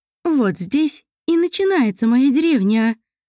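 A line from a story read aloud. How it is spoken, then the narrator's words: Joyful. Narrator (Russian): радостно произнесла Елене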